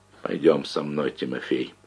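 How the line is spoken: Quiet. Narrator (Russian): тихо сказал Тимофею Рваному

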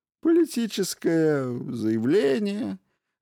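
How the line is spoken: Lazy suggestion. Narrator (Russian): лениво предположил Кин

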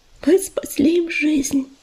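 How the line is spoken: Mother whispering. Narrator (Russian): прошептала мать

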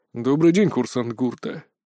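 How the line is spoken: Quiet greeting. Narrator (Russian): негромко поприветствовал меня лэнд-директор

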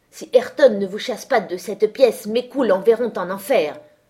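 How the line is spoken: Thundering voice. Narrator (French): tonna Heathcliff

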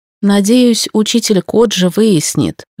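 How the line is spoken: Sighing. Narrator (Russian): вздохнула Техико

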